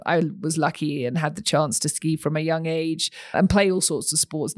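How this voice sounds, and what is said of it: British English accent. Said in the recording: “you can probably tell from my accent, I didn't grow up here. I grew up across the pond. ... as we call it back over in the UK”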